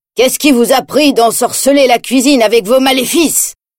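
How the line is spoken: Angry scolding rant. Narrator (French): tempête Sir Hector, grondant le sorcier

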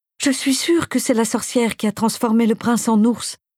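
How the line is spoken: Exclaimed, out of danger. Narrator (French): s'écria Mérida lorsqu'elles furent hors de danger

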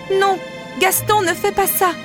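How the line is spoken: Pleading. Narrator (French): supplia-t-elle

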